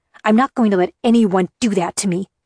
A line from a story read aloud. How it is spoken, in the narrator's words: I snapped